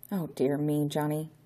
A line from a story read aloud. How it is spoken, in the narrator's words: whispered Constable Paul under his breath